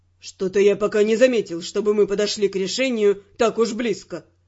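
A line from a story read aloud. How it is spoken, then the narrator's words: Grumbled. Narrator (Russian): проворчал Тео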